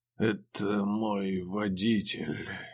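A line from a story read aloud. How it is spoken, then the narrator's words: Sudden strained utterance, passenger. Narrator (Russian): неожиданно выдавил пассажир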